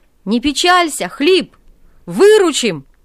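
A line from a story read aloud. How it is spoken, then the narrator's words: Cossacks shouting from below. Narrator (Russian): кричали ему снизу казаки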